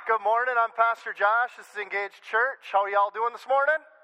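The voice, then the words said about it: Slight Southern accent. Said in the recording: “I sound a little southern right there.”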